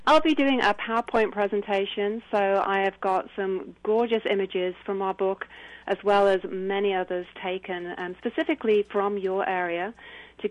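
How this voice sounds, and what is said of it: British accent. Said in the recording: “they'll have to get used to a British accent”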